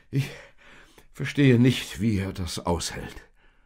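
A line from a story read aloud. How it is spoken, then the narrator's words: Panting. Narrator (German): keuchte Josef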